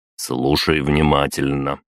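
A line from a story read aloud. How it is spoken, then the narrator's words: Soft, insinuating. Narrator (Russian): вкрадчиво проговорил я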